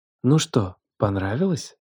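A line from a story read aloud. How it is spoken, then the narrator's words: Mocking, menacing whisper. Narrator (Russian): Прошептала Алена, и в ее голосе смешались насмешка и нечто темное, почти опасное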